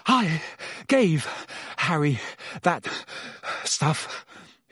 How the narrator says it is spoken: choked

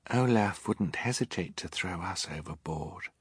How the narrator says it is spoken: Violet said, so quietly her siblings could scarcely hear her

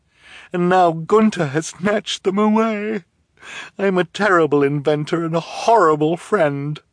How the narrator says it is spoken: she said mournfully

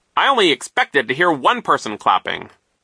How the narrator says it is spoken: he said sternly

